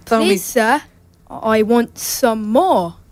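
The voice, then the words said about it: British accent. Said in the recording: “do you speak with a British accent”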